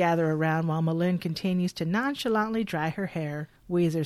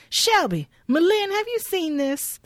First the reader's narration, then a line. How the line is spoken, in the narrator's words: She exclaims